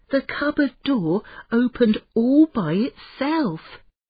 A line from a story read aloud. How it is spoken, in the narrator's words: Imran gasped